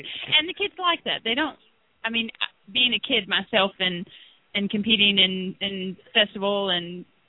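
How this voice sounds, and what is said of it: Slight Southern US accent. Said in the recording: “that accent's not California... It's a little southern in there... the southern accent”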